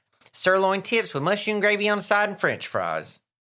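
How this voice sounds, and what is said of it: Childlike Southern accent. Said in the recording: “my little young Southern accent”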